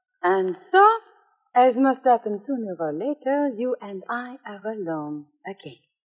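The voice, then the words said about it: Fake French accent. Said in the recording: “phony French accent”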